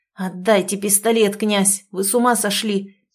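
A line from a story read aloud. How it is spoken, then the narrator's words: Angry hiss through pain. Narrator (Russian): цедил зло Кирилл, морщась от боли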